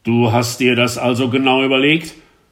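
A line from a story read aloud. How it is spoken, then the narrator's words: Shouting for the third time. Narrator (German): schrie er zum dritten Male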